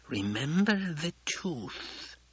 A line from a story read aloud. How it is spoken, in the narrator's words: Yui hissed